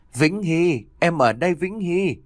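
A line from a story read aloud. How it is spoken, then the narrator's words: Woman shouting over crowd. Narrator (Vietnamese): cô lập tức hét lớn giữa dòng người đông đúc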